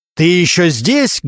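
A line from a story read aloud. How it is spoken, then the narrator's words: Loud bark. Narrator (Russian): громко рявкнул Регинский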